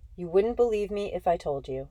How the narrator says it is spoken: I said

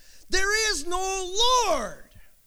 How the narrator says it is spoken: yelled back

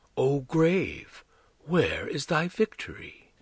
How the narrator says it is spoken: He said softly

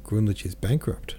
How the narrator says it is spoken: Tony asks under her breath

